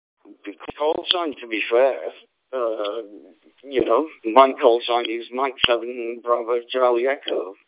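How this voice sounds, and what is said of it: English accent. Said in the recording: “I am English. I think you can presume by my accent”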